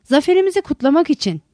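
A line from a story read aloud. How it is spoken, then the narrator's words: Shouting. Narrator (Turkish): diye bağırdı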